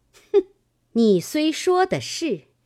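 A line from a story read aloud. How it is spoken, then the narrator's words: Laughing. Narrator (Chinese): 金贵笑道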